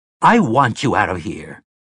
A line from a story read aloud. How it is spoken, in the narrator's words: Tower snarled